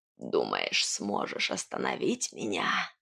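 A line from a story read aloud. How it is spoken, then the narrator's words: Insinuating, hoarse, raspy witch voice. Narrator (Russian): От вкрадчивого голоса ведьмы, этот хриплый, шершавый голос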